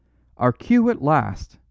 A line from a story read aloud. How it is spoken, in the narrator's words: cried Valentin